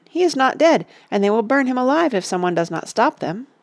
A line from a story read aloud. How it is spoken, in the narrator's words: cried Pippin